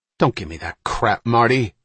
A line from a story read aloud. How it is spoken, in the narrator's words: Ryan snapped